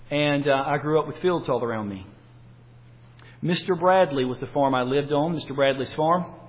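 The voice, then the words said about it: North Carolina Southern US accent. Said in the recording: “I grew up in North Carolina. Most of you know that from my accent.”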